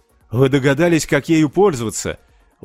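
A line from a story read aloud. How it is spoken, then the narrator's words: Exclamation. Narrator (Russian): воскликнул Карл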